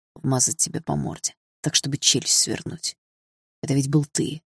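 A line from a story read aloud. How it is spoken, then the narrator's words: Near growl. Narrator (Russian): почти прорычал Дима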